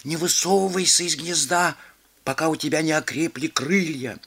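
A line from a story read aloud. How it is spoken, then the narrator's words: Muttering birds. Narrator (Russian): голуби бормотали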